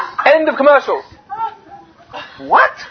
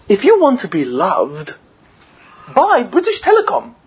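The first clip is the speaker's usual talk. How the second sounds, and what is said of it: Put-on English accent. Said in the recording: “in a beautiful English accent, which I can do quite well”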